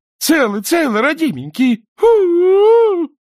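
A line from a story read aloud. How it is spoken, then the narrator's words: Sobbing. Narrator (Russian): рыдать она не перестала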